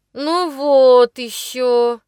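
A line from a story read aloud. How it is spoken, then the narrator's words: Through clenched teeth. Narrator (Russian): процедил Жорж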